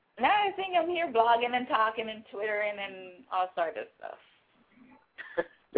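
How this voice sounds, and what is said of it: Jamaican accent. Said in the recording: “some kind of Caribbean, Jamaican accent”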